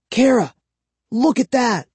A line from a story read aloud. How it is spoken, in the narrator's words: I whispered